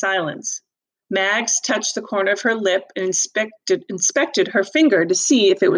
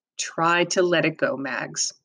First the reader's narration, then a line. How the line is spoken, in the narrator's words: he said